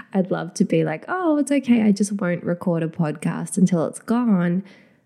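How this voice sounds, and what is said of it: Nasal, slightly breathy congested voice. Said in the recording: “I don't sound great. I'm very nasal, and I'm still feeling just like a bit breathy, as though I can't quite breathe in the normal way ... this kind of nasal tone”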